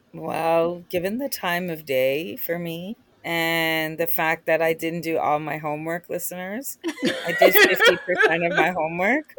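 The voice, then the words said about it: Strained, fading voice. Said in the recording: “I'm losing my voice due to some jet lag.”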